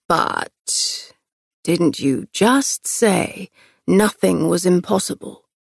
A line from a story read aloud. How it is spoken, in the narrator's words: He all but purred